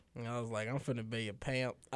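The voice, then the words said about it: Put-on country accent. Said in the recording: “I like how you had a country accent when you said ... that.”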